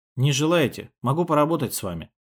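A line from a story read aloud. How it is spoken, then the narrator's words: Soft. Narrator (Russian): сказал я мягко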